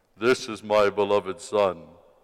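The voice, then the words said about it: Solemn booming voice of God. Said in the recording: “my God voice ... God speaks with an American accent”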